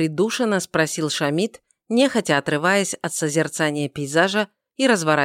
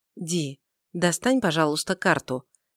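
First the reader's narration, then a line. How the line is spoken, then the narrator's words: Quiet request. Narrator (Russian): тихо попросила Тайма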